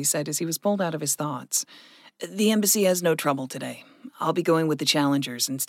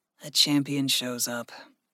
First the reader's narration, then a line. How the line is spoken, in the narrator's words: Gregory said softly